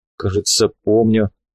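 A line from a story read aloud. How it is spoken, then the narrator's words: Uncertain agreement. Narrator (Russian): неуверенно согласился Плотников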